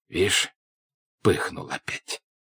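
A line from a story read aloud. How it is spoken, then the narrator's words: Whispering to himself. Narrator (Russian): проговорил Тушин шепотом про себя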